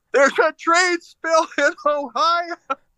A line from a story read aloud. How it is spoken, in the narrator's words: I yelled up at the building to Pete Buttigieg and said